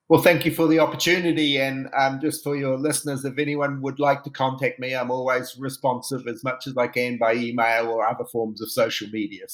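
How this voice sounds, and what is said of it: New Zealand accent. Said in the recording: “they may have been expecting an Irish accent ... I actually originally come from New Zealand”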